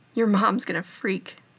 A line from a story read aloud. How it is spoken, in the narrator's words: Styles said, laughing